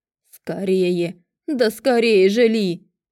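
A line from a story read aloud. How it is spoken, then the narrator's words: Frantic howl. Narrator (Russian): взвыл Мантикор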